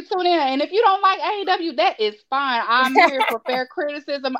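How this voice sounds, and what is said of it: Texan accent. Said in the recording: “I am in Texas. Obviously, y'all can hear it in my accent.”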